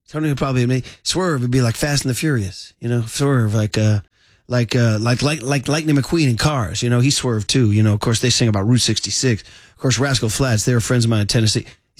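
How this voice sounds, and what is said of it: Imitates another person's voice. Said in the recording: “I'm doing my Tony impression, right? That's my Tony.”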